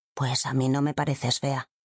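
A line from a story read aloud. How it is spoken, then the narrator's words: Child whispering. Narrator (Spanish): el niño susurró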